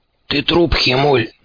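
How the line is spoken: Hoarse rasp. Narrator (Russian): прохрипел клещ

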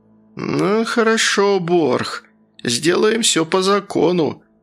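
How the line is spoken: Hostile through gritted teeth. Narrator (Russian): староста буравил Борха заплывшими глазками и сквозь зубы процедил

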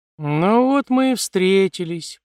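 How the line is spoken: Lazy drawl. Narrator (Russian): протянул он лениво

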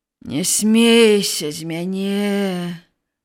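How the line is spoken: Groaning. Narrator (Belarusian): прастагнаў Тэзей

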